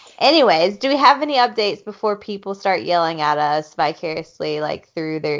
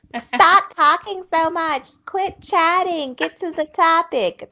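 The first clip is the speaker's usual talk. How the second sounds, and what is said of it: Mock voice of impatient online trolls. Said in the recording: “my impersonation of trolls”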